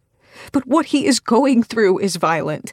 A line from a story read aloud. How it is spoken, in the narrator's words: I argue